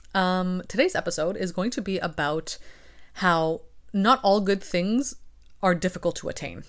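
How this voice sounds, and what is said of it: Slightly raspy voice. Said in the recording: “my voice is a little raspy. I've spent the morning recording videos and I've recorded a few other podcasts before this.”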